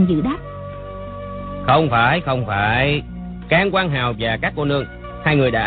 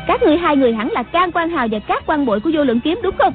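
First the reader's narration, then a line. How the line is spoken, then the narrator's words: Loud bark. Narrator (Vietnamese): Người đứng giữa quát lớn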